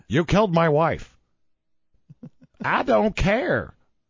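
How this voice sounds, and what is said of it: Imitates another person's voice. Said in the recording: “my Tommy Lee Jones impression ... That's a pretty good Tommy Lee Jones.”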